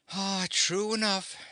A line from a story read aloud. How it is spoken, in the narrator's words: sighed the Scarecrow